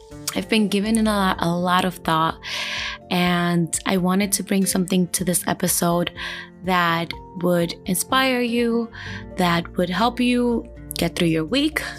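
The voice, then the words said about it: Slightly raspy late-night voice. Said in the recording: “You hear my voice a little raspy is because, well, it's 2 o'clock in the morning”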